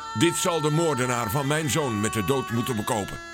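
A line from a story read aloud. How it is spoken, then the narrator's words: Called out. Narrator (Dutch): riep Karel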